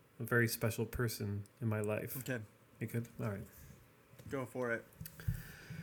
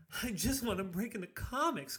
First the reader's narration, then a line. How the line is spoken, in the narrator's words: screamed the young man